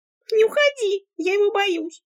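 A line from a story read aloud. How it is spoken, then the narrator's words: Frightened squeak. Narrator (Russian): Пискнула подруга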